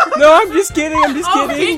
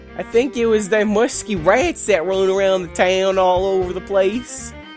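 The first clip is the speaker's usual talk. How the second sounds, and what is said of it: Mimics another character's accent. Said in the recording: “Are you making fun of my accent? ... You, literally a minute ago, you weren't talking like that.”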